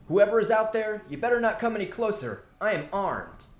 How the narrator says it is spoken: Jeremy shouted

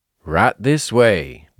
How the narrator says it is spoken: the commissioner said, smiling coldly

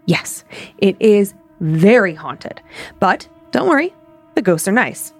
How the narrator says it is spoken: in the most serious voice I'd ever heard, and he said

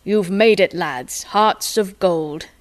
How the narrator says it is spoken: Sid boomed at them

